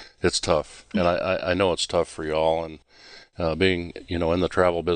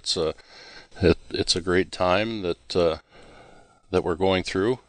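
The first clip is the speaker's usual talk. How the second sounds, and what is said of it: Sarcastic tone. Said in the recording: “I'm being sarcastic.”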